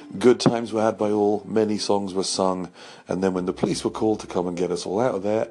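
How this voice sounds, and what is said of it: Worn-out, hoarse voice. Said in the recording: “my voice is somewhat shot now”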